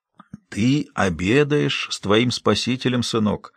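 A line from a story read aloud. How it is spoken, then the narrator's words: Whispered. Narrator (Russian): прошептал Большой Джим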